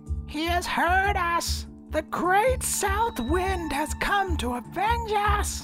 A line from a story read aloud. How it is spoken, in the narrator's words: the old man squealed